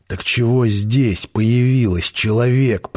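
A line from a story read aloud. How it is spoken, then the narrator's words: Wheezing, gasping for air. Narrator (Russian): просипел, хватая ртом воздух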